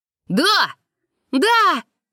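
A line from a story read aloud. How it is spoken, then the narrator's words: Two voices shouting. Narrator (Russian): закричали Яра и Чик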